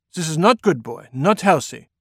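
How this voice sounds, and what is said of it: Rough deep voice, German-French accent. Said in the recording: “he asked in his rough, deep voice ... he still had a heavy accent, somewhere between German and French”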